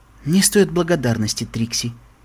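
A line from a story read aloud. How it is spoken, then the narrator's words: Soft reply. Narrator (Russian): мягко ответила Твайлайт Спаркл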